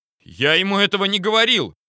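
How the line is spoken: Shouting. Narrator (Russian): закричал Сливко

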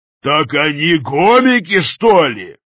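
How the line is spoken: Roaring. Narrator (Russian): Взревел сержант

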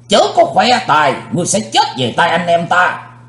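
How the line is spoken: Thunderous shout. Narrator (Vietnamese): Tam Ái Viên Hồng Phương cũng quát tợ sấm

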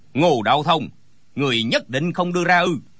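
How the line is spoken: Angry shout. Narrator (Vietnamese): Gã cao kiều giận dữ quát

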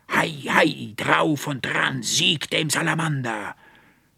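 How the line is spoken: Booming voice filling room. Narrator (German): dröhnte die Stimme des Archivarius durch das Zimmer

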